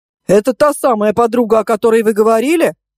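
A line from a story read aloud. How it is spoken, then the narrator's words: Loud questioning journalist. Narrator (Russian): громко спросил какой-то особенно дотошный журналист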